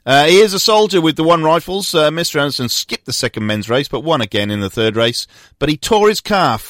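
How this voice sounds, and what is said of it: Usual voice. Nothing is said of it.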